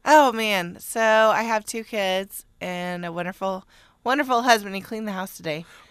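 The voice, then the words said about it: Tired-sounding voice. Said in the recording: “You do sound tired.”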